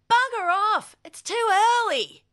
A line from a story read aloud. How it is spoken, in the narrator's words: he yelled